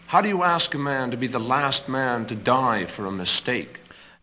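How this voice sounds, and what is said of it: Pronounced Boston Brahmin accent. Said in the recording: “his Boston Brahmin accent pronounced”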